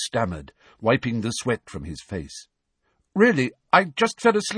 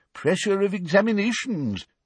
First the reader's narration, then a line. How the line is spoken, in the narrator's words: said the old wizard sympathetically